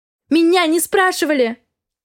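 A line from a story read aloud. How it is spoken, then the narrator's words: Desperate young woman shouting. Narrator (Russian): В отчаянии закричала девушка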